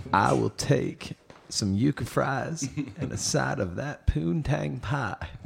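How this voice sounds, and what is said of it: Bill Clinton impression. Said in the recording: “What if you met Bill Clinton? ... I can't even do his voice.”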